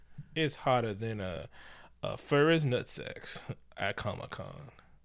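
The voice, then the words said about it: Put-on Southern US accent. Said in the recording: “I'm doing my South racist accent... That's pretty good.”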